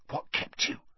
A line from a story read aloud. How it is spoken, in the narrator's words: Ron hissed